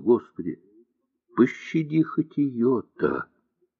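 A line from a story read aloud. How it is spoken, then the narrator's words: Sleepy whisper. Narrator (Russian): Все еще сонный Морозов прошептал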